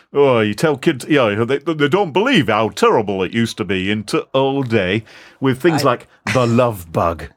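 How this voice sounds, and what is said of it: Put-on Yorkshire accent. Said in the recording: “insulted with that accent? ... apologies to people from Yorkshire”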